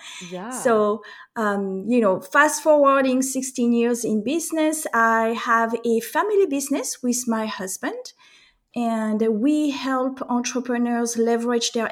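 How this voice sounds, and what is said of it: French accent. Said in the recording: “as you can tell from my accent, I am French”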